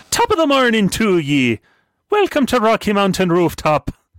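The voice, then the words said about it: Put-on Irish accent. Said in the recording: “Evan doesn't like my Irish accent.”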